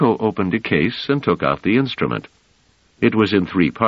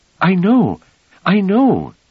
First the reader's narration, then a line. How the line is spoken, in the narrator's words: said Thallum eagerly